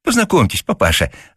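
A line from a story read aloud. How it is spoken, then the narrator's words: Joyful chirping. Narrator (Russian): радостно защебетала Зося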